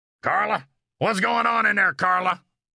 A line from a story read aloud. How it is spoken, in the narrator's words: a man's voice roar